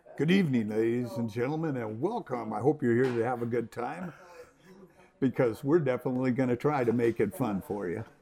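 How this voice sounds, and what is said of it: DJ announcer voice. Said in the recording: “Give me your best DJ voice ... My best DJ voice”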